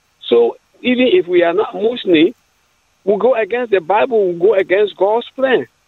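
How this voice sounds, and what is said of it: Fairly strong accent. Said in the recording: “got a fairly strong accent”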